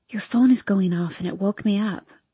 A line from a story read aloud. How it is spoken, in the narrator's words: I whisper, despite the fact that we are the only people in the room